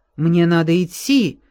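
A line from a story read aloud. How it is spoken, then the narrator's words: Exclamation. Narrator (Russian): воскликнул Даррелл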